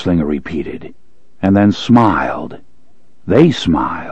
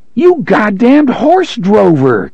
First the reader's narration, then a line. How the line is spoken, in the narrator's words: Cuthbert suddenly yelled, grinning